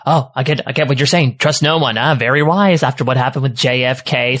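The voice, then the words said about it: Fast-talking nerdy character voice. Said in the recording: “good impression... I do fast talking nerd very well”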